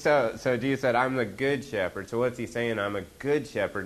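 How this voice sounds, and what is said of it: Oklahoma accent. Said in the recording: “my Okie accent”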